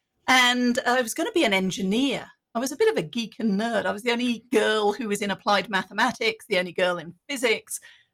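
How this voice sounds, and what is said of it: Slight British accent. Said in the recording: “originally from the UK, if you haven't detected the hint of an accent just yet”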